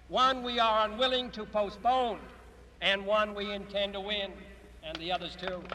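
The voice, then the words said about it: Strong Boston accent. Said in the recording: “Kennedy's accent, pretty atrocious. Ugh, Boston”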